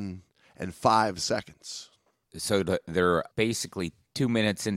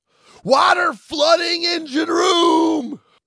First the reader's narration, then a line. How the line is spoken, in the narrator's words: the telephone talker screamed